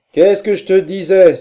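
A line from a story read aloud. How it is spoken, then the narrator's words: Exclaiming. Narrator (French): s'écria Corcoran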